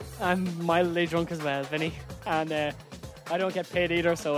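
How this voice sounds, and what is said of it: Usual voice. Nothing is said of it.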